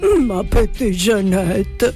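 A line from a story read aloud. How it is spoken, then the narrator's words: Sorry sigh. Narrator (Italian): sospirò dispiaciuto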